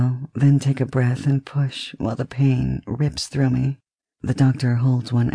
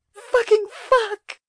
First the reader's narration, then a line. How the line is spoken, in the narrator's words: I scream